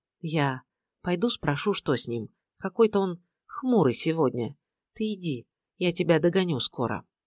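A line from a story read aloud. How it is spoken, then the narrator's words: Quiet speech. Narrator (Russian): Даша проговорила тихо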